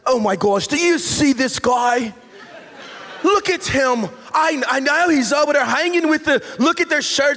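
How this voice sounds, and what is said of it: Put-on elite-sounding accent. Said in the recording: “that accent, but that accent just seems to work, right? ... For some really elite people”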